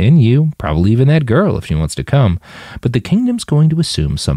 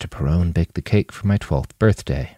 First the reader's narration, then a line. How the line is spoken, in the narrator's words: Manny whispered